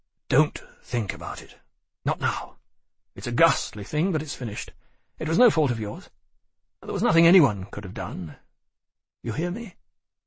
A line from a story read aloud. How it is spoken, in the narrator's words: said firmly again